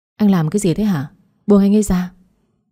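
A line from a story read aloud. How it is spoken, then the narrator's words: Exasperated shout. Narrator (Vietnamese): tôi quát anh với giọng nói đầy bực tức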